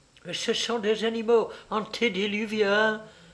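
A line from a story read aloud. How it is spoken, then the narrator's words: Exclaimed. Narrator (French): s'écria-t-il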